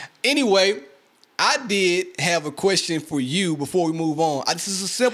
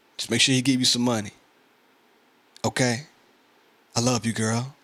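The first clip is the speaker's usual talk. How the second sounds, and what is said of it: Put-on sexy, seductive voice. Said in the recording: “It's my sexy voice.”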